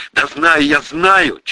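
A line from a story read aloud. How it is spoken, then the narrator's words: Near shout. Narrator (Russian): чуть не завопил я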